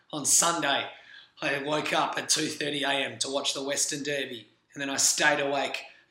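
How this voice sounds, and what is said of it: Worn-out, strained voice. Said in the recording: “As you can clearly hear, my voice is a little bit worse for wear.”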